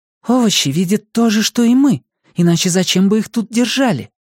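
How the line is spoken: Whispered in ear. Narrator (Russian): Ники зашептал ей на ухо

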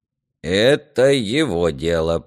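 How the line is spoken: Creaky voice. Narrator (Russian): проскрипел Ерема

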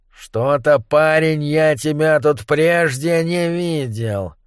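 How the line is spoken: Grumbling. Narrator (Russian): пробурчал он

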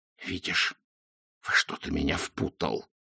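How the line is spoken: Hissing. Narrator (Russian): прошипел Ринсвинд

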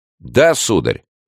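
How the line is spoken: Plain. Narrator (Russian): сказал король

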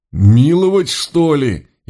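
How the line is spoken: Tearful howl, fat man. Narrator (Russian): Едва ли не со слезами взвыл толстяк Бодров, закусывая бороду

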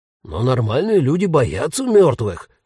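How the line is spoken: Ghost exclaiming. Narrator (Russian): воскликнул призрак

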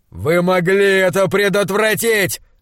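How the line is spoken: Shouting. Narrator (Russian): закричал он

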